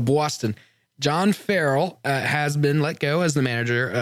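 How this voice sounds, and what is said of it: Usual voice. Nothing is said of it.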